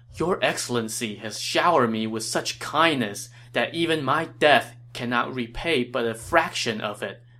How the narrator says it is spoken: Guo Jia said

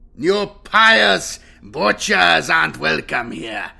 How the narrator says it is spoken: growled Grimnar

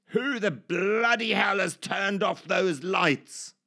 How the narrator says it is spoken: through the blackness, a voice would roar

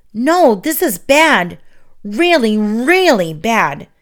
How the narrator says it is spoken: Tink cried

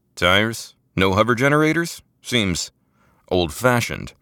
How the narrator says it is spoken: Manu said

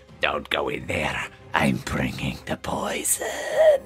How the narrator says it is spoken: the halfling mutters

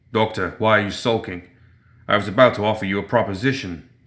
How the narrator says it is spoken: the boxer growled

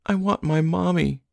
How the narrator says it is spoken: she whimpered

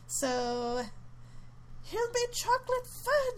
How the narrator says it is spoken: shrieked Mrs

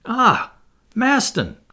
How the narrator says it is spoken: cried Barbicane

